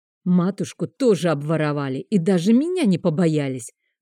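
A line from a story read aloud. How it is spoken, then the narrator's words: Growl. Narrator (Russian): зарычал он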